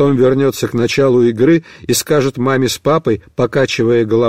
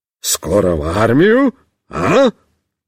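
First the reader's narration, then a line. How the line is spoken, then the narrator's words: Cheerful exclamation. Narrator (Russian): бодро воскликнет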